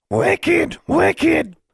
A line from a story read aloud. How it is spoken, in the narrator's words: Charlie shrieking